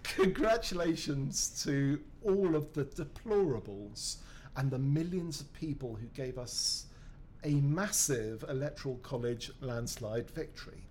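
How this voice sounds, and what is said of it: British accent. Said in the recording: “in a British accent, deplorable sounds sort of amazing”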